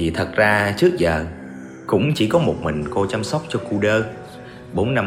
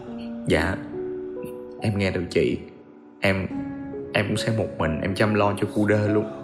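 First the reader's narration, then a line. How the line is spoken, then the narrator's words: Tearful, gentle. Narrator (Vietnamese): Giang gạt nước mắt nhẹ nhàng rồi nói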